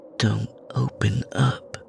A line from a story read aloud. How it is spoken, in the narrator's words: she said in a low voice